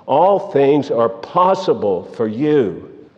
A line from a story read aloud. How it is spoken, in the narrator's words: he cried out